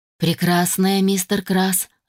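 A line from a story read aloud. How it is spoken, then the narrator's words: Cheerful growl. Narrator (Russian): рыкнул весело Адам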